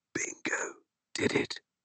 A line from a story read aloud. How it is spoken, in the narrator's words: she said in a strained whisper